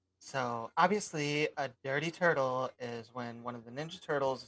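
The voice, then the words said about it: Imitates another person's voice. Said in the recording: “my best J Hizzle impression ... he doesn't sound that gay”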